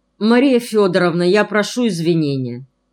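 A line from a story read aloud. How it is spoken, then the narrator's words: Polite, cold. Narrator (Russian): сказал вежливо и холодно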